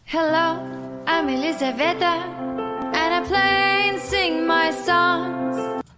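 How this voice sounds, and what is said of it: Speaks with a noticeable foreign accent. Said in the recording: “That voice, well, that wonderful accent.”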